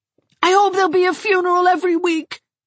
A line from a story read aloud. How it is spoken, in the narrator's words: cried Gerald